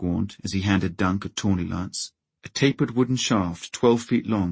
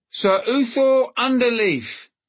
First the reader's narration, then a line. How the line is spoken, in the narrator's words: his voice rang out